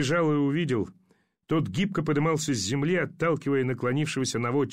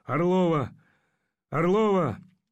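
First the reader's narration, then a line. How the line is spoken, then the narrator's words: Hoarse calling voice. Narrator (Russian): зовущий хриплый голос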